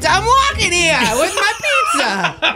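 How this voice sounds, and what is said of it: Put-on New York accent. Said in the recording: “accent”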